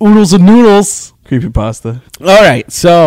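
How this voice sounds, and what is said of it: Usual voice. Nothing is said of it.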